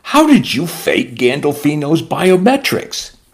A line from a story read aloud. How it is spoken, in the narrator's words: The abbot chuckled